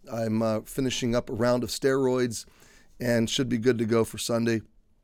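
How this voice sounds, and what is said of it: Congested, slightly strained voice. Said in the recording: “You can tell my voice is still on edge a little bit ... you can tell I'm a little congested”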